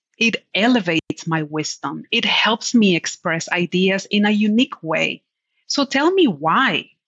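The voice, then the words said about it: Speaks English with a Spanish accent. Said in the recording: “My words do sound different ... I own every part of my accent”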